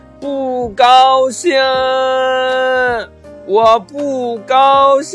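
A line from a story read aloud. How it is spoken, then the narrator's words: Loud unhappy shout. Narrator (Chinese): 不高兴，特别不开心了……对着大山大声的喊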